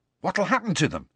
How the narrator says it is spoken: said Ron eagerly

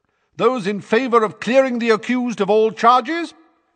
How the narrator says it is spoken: said Madame Bones's booming voice

